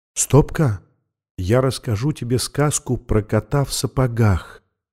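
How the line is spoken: Whisper. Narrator (Russian): шепнула она

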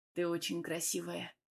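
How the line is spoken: Hoarse voice. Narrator (Russian): хрипло проговорил мой муж, кажется

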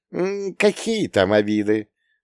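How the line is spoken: Girlish giggle. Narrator (Russian): совершенно по-девичьи хихикнула мама

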